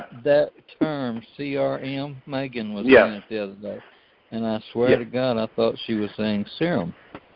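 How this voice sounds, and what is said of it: Slow-talking Texan accent. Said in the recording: “slow-talking Texan”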